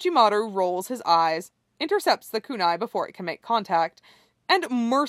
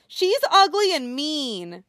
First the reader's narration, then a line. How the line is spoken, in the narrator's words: That earns him a screech